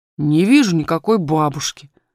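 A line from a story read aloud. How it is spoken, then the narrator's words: Rather rude. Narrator (Russian): ответил он довольно грубо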